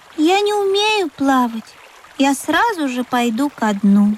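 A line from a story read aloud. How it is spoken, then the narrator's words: Sighing. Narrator (Russian): вздохнул Пых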